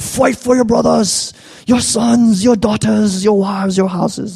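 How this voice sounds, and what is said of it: Horrible Braveheart-style put-on accent. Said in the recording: “this is like the original Braveheart like speech ... That was the horrible accent.”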